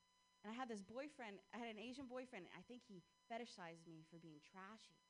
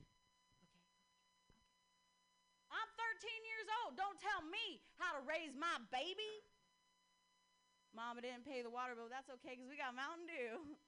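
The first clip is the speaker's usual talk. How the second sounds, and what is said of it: Put-on country accent. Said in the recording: “can you say something to me, like, in a country accent?”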